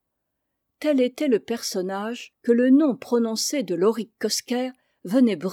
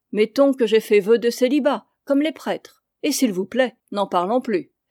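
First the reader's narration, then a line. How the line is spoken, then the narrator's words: Curt, trembling, forced irony. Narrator (French): feignant une ironie qui sonnait faux, il déclarait d'une voix brève, un peu tremblante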